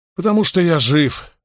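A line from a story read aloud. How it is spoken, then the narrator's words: Snapping. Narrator (Russian): огрызнулся Мэтт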